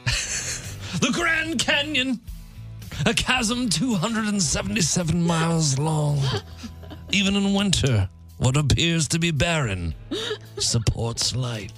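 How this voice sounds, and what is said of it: Imitates another person's voice. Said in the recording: “David Attenborough is probably the best ... this guy's from Illinois. Listen to him talk ... What hell accent is that?”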